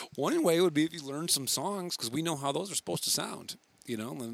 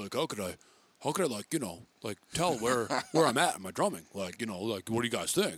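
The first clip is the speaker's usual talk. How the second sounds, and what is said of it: Imitates another person's voice. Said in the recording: “it's Ryan voice ... Great impression. Great impression. Very good.”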